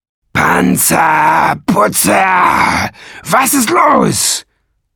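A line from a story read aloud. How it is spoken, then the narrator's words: Bellowed. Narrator (German): brüllte Nesselbrand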